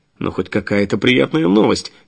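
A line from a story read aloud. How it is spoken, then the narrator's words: Short laugh. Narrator (Russian): Деменко хохотнул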